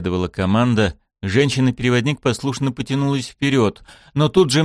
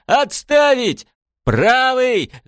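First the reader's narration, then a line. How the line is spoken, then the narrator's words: Shouted. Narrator (Russian): закричала капитан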